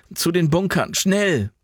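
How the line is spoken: Called out. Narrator (German): rief Jan

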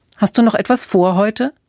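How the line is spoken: Plain. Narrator (German): fragte sie

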